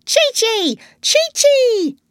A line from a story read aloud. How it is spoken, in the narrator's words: shouted the parrot